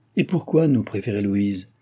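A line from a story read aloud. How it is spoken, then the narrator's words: Sour question. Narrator (French): demanda d'un ton aigre Madame Sophie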